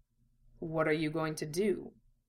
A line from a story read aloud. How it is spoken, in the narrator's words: Roy asked quietly